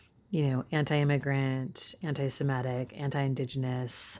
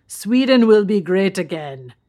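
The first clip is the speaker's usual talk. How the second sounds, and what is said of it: Mock Swedish accent, Terminator-like. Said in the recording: “my attempt at a Swedish person speaking English ... You sounded like the Terminator.”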